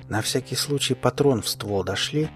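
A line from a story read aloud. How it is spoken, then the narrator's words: Barely audible. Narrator (Russian): сказал едва слышно ботаник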